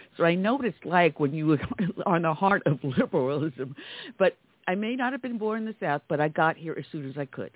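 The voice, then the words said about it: New York accent. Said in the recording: “you can hear my New York dialect”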